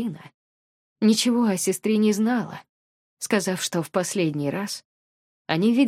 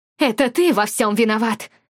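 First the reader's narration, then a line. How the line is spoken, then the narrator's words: Muffled distraught shouting. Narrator (Russian): кричала мама, закрывая ладонями то рот, то все лицо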